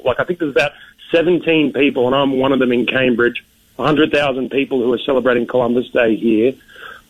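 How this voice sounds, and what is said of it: Australian accent. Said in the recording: “it's not a Southie accent. I'm from Australia.”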